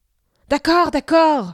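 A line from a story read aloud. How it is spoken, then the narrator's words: Shouted. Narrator (French): cria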